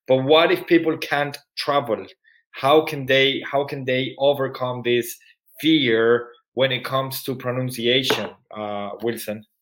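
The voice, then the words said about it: Spanish accent mixed with Irish. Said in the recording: “My English used to be nearly American, but now it's more like a mix between Latin and Irish... I'm Spanish. And I have my Spanish accent”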